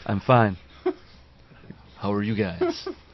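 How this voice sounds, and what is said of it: Restrained, deep radio-announcer voice. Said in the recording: “So restrained. ... This is my new FM radio voice.”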